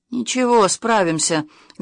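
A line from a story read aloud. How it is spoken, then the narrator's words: Gruff mumble, burly man. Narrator (Russian): грубым голосом пробурчал один из собеседников Ворша, не очень рослый, но крепкий детина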